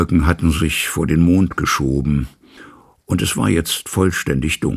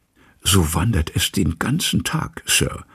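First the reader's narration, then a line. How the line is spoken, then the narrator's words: Whispering. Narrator (German): flüsterte Poole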